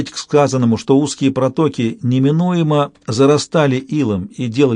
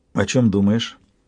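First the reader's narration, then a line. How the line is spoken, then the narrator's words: Quiet question. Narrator (Russian): негромко спросила Янтарь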